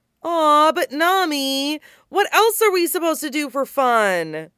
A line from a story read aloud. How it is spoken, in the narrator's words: Luffy whines